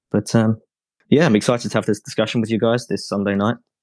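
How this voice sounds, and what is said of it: English accent. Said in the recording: “why I sound English”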